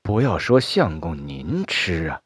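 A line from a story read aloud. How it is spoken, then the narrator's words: Muttering. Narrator (Chinese): 船夫喃喃的说道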